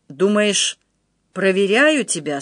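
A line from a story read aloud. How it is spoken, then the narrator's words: Indifferent tone. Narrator (Russian): сказал вдруг Вильгельм равнодушным тоном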